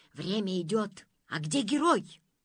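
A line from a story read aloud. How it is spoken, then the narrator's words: Angry hiss. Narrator (Russian): в ответ сердито шипел пиф-паф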